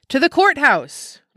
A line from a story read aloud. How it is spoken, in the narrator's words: was shouted in one quarter